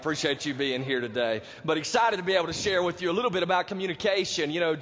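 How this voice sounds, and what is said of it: Sick, messed-up voice. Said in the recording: “my voice is a little messed up ... this past week I had the flu, and right now I've got strep throat”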